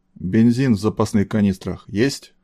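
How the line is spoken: Menacing nervous young man. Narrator (Russian): грозно спросил явно нервничавший молодой мужик

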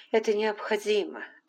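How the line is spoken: Plain. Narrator (Russian): ответила Скарлетт

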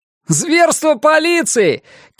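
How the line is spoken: Shouted. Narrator (Russian): крикнул какой-то смельчак

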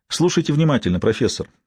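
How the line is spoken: Quiet. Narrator (Russian): тихо произнесла убийца

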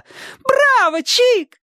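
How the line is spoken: Excited shout. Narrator (Russian): Сонька, не утерпев, закричала

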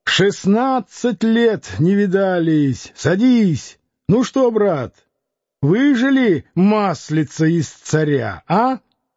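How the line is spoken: Excited shout. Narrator (Russian): Лютов закричал

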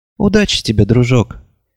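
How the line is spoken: Soft. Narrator (Russian): мягко сказала Шармен

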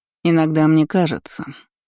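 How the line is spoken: Cold. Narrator (Russian): произнесла она холодно

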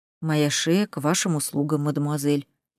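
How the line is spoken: Quiet reply. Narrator (Russian): тихо ответил Поль

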